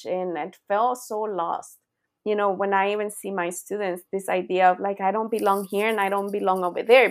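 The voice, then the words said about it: Non-native English accent. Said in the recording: “even with my accent”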